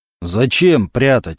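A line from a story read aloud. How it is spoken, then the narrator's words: Deep bass voice. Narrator (Russian): забасил со своего места Мантуленко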